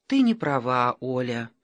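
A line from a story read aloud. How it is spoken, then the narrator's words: Gentle objection. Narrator (Russian): мягко возразила Ира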